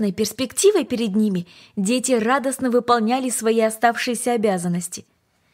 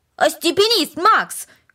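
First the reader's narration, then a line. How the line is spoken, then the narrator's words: Shout. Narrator (Russian): крикнул Дино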